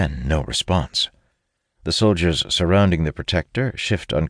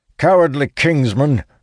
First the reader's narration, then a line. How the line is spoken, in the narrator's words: Sturgis bellows